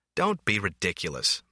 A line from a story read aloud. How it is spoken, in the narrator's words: McCandless scoffed